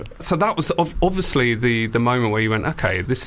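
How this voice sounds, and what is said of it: Usual voice. Nothing is said of it.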